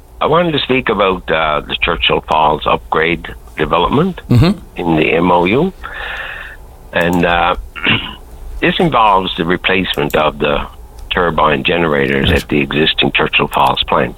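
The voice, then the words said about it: Cracked, rough voice. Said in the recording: “My voice is a little bit cracked.”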